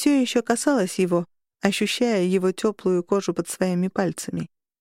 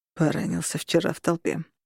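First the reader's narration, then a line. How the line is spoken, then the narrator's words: Slightly hoarse reply. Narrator (Russian): чуть хрипло ответил он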